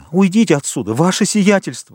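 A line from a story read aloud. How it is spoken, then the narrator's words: Exclaimed. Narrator (Russian): воскликнул он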